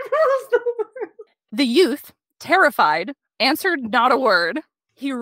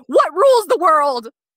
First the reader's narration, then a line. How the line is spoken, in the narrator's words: shouted